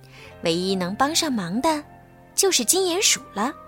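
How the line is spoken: Murmuring. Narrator (Chinese): 布朗提喃喃地说

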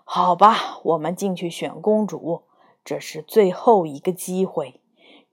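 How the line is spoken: Witch sighing. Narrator (Chinese): 巫婆叹了一口气说

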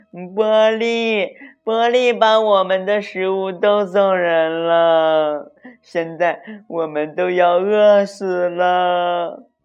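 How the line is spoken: Crying. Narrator (Chinese): 娜娜哭着说

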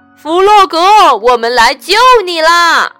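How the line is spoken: Loud. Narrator (Chinese): 他们大声说

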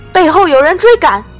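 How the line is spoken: Shouting. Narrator (Chinese): 马腾在正门下大叫

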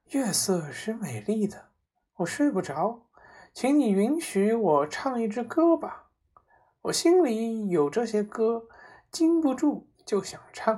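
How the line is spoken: Sighing. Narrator (Chinese): 她叹息着说

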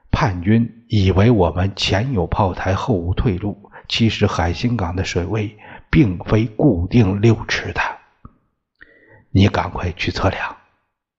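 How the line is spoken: Low voice. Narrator (Chinese): 李参军低声说

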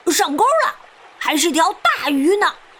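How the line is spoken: Sudden child's shout. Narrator (Chinese): 小胖墩儿突然喊道

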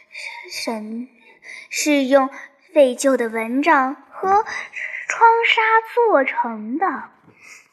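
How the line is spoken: Laughing. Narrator (Chinese): 莉莉笑着说

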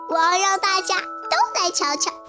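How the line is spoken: Loud shout. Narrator (Chinese): 多多大喊起来

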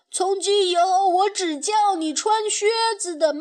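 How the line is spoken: Regretful shout from behind. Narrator (Chinese): 小胖墩儿后悔的在后面喊

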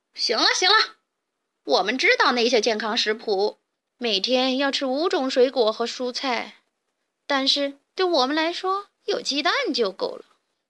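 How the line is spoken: Laughing. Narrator (Chinese): 强盗巴巴笑道

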